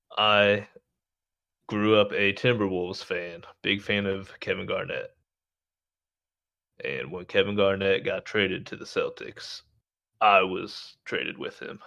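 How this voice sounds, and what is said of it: Indiana Midwestern American accent. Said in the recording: “as you can hear by my voice, clearly an Indiana boy, born and raised”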